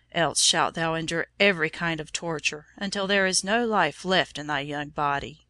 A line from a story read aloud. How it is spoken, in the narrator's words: thundered the governor